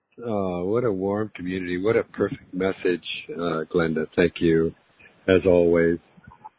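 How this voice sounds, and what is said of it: Sick-sounding voice, chest illness. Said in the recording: “I'm still dealing with this thing, I'll call it, in my lungs, as you can hear in my voice”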